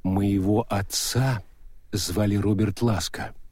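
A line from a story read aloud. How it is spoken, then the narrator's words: Detached. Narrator (Russian): сказала она отрешенным голосом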